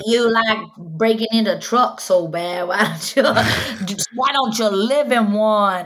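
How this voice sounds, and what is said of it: Put-on Cajun accent, fairly good. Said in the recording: “I'm having trouble doing the Cajun accent. ... That's a pretty good Cajun accent.”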